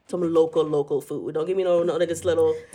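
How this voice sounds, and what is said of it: Put-on local accent. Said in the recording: “Did you turn on the accent?”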